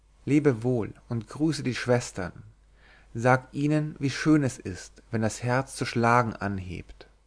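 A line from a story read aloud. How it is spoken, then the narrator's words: Calm reply. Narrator (German): Erwiderte ruhig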